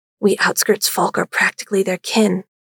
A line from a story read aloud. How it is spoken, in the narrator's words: she whispered back